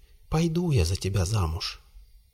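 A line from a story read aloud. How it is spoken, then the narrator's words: Quiet whisper. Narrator (Russian): Лейпениди тихонько Рыдласту шепчет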